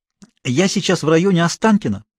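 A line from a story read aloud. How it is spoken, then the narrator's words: Hurried explanation. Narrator (Russian): торопливо пояснила Мария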